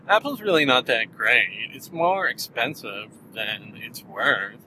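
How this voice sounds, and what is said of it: Impression of an Apple critic. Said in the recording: “people will kind of say, Apple's not that great, you know. I'm doing an impression here.”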